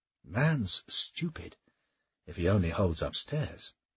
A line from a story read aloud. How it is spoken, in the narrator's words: said Kilbert quietly